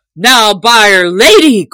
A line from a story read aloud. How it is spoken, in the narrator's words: cried the tinker hastily, and in a deep voice like an angry bull